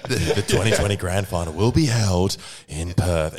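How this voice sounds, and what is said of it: Imitates another person's voice. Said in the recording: “your Gil impression”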